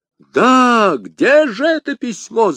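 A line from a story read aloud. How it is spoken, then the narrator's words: Shouting. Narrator (Russian): закричал Д'Артаньян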